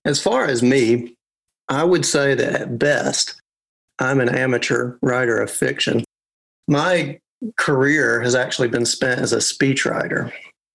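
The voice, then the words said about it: Arkansas accent. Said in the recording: “my home state, which, as you can So you can probably guess is Arkansas ... And then there's the accent, which I find very, very pleasant.”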